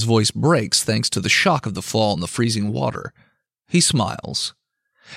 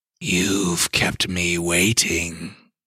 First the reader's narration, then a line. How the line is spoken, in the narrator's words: the Michael Leviathan hisses